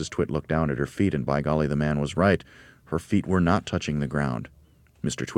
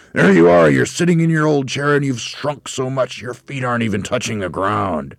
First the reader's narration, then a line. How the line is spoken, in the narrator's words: Twit shouted